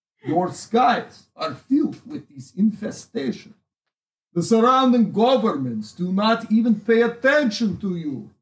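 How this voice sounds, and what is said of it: Put-on Russian accent. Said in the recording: “I have a Russian accent, though.”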